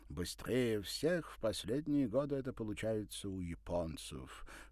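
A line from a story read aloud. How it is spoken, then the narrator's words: Snorted. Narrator (Russian): хмыкнул он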